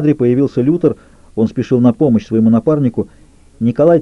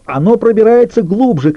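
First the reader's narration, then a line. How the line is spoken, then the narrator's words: Shouted. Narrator (Russian): кричал он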